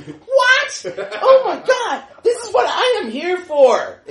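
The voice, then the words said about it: Screeching high voice, American accent. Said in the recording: “screeching like a little girl ... in an American accent”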